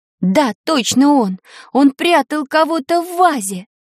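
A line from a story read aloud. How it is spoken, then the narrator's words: Groaning in self-reproach. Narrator (Russian): простонала Таня, ругая себя за недогадливость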